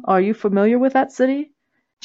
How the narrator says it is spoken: Jenkins chuckled

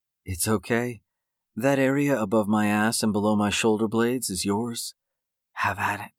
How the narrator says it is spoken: Sarah whispered into Jake's ear

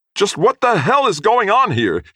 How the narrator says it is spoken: yelled, his trademark composure still eluding him

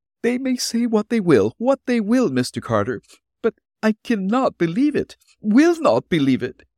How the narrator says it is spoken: tearfully declared

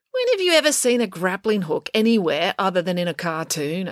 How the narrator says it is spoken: asked Finn

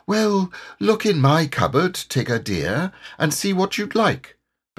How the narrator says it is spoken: Kanga said very kindly

